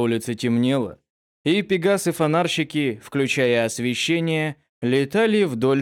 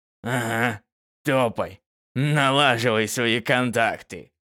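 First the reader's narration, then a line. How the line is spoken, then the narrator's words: Scoffing snort. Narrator (Russian): хмыкнул Панифаций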